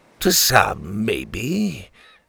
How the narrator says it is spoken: the captain sneered

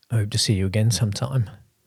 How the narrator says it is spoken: I replied, my voice hoarse

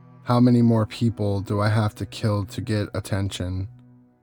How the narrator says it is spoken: he asked

